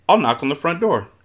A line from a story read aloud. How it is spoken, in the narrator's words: announced brightly